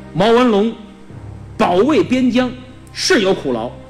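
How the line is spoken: Stern. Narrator (Chinese): 袁都师厉声说道

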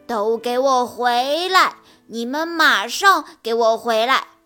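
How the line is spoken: Pompous loud roar. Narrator (Chinese): 他依然摆着架子，大声吼道

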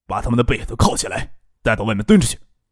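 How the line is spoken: Deep-voiced command. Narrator (Chinese): 那带队的青年就沉声吩咐手下

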